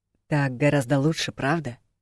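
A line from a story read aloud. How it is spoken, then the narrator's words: Low growling question. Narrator (Russian): Низким рычащим голосом поинтересовался он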